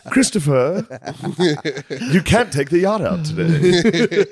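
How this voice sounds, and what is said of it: Old-timey rich New England accent. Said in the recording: “the old timey accent ... American, New England, like ... We're rich”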